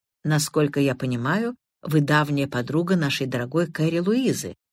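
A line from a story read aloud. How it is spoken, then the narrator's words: Plain. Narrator (Russian): спросил он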